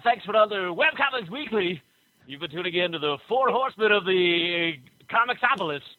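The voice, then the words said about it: Radio announcer voice. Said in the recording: “I'll turn on my radio announcer voice.”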